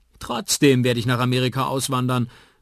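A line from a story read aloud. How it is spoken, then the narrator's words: Calling out. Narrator (German): ruft Liams Bruder Brandon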